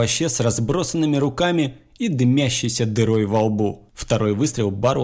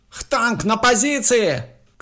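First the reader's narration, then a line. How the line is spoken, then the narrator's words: Shouted. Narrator (Russian): крикнул Луис Бо Дереку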